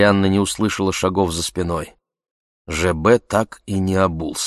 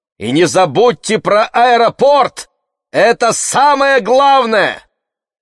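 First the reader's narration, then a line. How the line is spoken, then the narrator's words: Worried shout. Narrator (Russian): опасаясь, что купание все-таки не пошло ему на пользу, и крикнула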